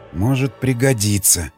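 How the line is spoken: Soft whisper. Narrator (Russian): тихо прошептал

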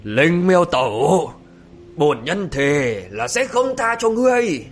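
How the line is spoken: Hateful roar. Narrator (Vietnamese): Gã là căm hận gầm lên

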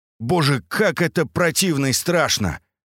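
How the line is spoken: Screaming. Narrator (Russian): я закричал

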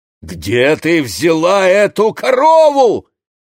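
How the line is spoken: Shout. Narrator (Russian): крикнул Моше

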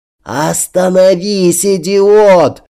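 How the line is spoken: Shout breaking into hoarseness. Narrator (Russian): голосом, срывающимся на хрип, закричала Милана Хенгельман

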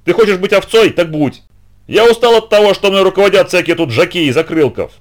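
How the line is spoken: Yelling back. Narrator (Russian): тот заорал в ответ

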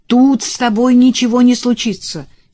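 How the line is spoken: Shouted over shoulder. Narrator (Russian): через плечо крикнула ей Элизабет

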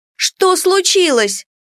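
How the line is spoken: Neighbor exclaiming. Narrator (Russian): воскликнула соседка

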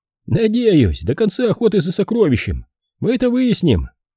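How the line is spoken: Cheerful reply. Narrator (Russian): бодро ответил Зик

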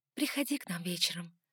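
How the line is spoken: Whisper. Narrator (Russian): шепнула я Лукасу

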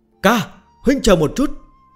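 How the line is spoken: Shout. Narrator (Vietnamese): Hắn ta hét lên

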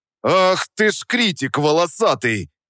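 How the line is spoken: Roaring. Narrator (Russian): взревел я

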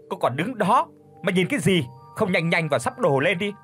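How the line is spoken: Hissing through teeth. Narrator (Vietnamese): Bà rít qua kẽ răng

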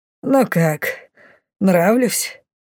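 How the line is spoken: Mocking hiss. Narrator (Russian): Издевательски прошипел он

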